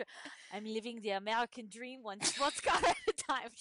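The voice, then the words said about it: Attempted odd foreign-sounding accent. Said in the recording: “This new one has like a really weird accent, so I'm gonna try ... She's not French. She's not French ... She's like probably Armenian or something”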